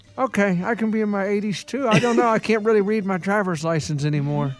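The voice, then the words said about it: Old man character voice. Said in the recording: “this impression ... not that good of an impression of anybody ... a very good impression ... He sounds like he's 80.”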